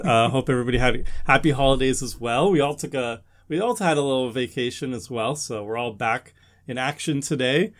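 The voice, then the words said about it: Hoarse, worn-out voice. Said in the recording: “My voice is pretty shot ... hence my voice is pretty shot ... a little frazzled with no voices”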